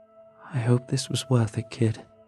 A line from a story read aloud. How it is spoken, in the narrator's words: it said, calmly and coldly